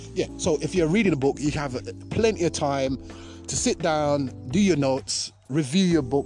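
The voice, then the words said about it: Excited, energetic, pumped-up voice. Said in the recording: “you can hear it in my voice, how pumped up I am ... You can hear how pumped up I am”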